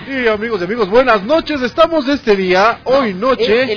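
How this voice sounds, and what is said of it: Reality show announcer voice. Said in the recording (Spanish): “vamos con una voz de locutor de, ¿cómo se llama? De reality”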